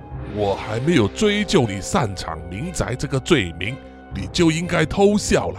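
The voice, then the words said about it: Quiet, menacing low voice. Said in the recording (Chinese): “刻意用小声又充满威压的语气”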